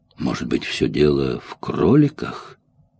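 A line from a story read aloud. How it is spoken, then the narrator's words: Muttering to himself. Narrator (Russian): пробормотал про себя Джек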